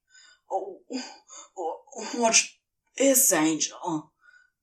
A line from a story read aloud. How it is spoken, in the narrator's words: demon groaned, reaching some infernal breaking point